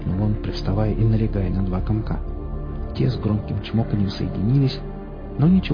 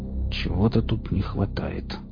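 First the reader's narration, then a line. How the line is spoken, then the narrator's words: Mutter. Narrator (Russian): пробормотал он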